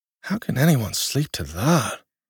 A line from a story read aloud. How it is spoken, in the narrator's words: Tiranon grumbled in Slevin's direction